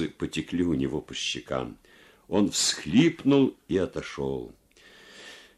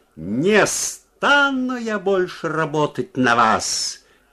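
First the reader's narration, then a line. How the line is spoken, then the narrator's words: Loud shout. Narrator (Russian): крикнула она громко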